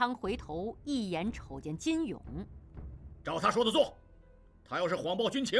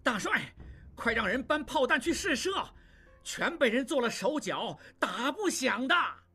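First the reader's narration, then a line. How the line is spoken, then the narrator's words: Loud. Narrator (Chinese): 望柏大声说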